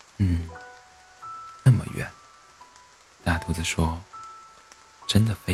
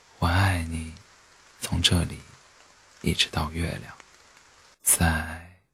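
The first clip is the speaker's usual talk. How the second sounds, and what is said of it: Soft, quiet, smiling voice. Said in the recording (Chinese): “小声的微笑地说”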